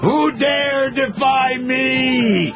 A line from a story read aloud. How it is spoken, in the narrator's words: Cheney roars